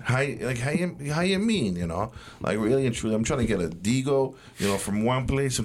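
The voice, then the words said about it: Exaggerated mock stereotyped accent. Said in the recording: “The accent is holding us way back. Nobody talks like that. It's a joke.”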